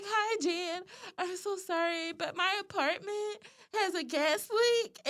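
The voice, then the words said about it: Whiny college girl voice. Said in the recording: “my whiny college girl voice.”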